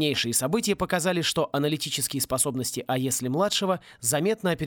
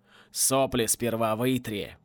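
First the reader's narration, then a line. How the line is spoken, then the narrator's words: Grumbling command. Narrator (Russian): проворчал ВВ и скомандовал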